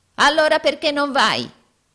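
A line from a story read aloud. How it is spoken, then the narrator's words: Yelling. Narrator (Italian): urlò Arturo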